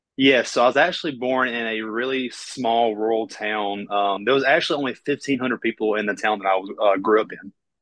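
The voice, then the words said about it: Southern US accent. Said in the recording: “you've got a Southern accent”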